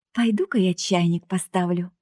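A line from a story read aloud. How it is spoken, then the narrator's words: Sigh. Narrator (Russian): вздохнула Женька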